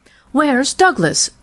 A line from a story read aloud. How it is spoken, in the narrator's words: demanded fiercely